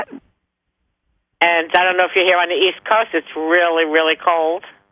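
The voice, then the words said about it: New Jersey accent. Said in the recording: “I'm in New Jersey. ... Well, you've got the accent for it.”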